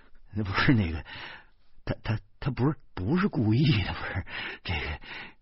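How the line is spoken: Panting, panicked. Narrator (Chinese): 我大口大口的喘着气儿，我惊慌的说

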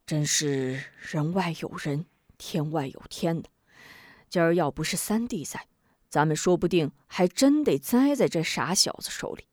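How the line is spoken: Sighing. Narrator (Chinese): 李章叹道

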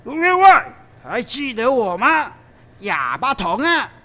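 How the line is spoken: Big man shouting loudly. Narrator (Chinese): 那个黑大汉高声叫道

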